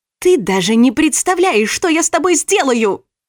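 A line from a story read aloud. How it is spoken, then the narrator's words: Shouting. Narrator (Russian): крикнула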